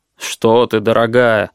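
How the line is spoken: Glum protest. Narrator (Russian): уныло запротестовал супруг

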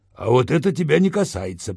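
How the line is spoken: Sharp shout. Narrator (Russian): прикрикнул на меня Виталик

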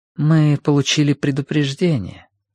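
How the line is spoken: Soft. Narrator (Russian): сказала Цзянь по-прежнему мягко

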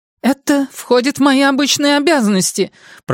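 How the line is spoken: Shrill shriek. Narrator (Russian): пронзительно взвизгнула Шерилл Босток

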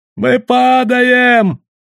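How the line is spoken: Shouted in barbarian dialect. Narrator (Russian): прокричал на восточном варварском диалекте кто-то из вертунов

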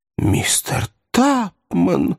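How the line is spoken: Exclaiming. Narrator (Russian): воскликнула Рэйчел

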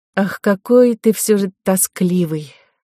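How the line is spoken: Sighing. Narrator (Russian): вздохнула Ко

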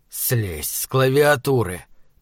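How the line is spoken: Through gritted teeth. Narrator (Russian): процедил я сквозь зубы

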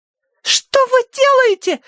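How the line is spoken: Shrieking. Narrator (Russian): визжала Тосси

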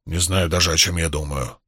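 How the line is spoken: Grumpy grumble. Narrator (Russian): сварливо пробурчал Уно

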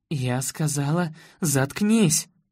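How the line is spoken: Shrieking, losing composure. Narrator (Russian): Теряя самообладание, взвизгнула Эйжел

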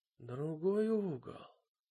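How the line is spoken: Mumbled. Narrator (Russian): пробормотала она

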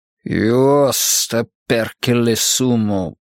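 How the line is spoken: Through gritted teeth. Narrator (Russian): процедил он наконец

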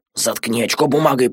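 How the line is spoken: Whispered. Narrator (Russian): прошептал Адама

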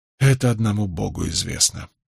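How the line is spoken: Sighing. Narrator (Russian): вздохнул я

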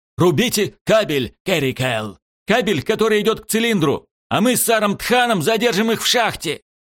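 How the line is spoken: Shouted while running. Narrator (Russian): крикнув на ходу

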